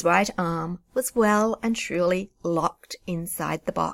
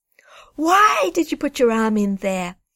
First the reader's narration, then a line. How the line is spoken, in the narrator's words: cried, my voice getting higher and louder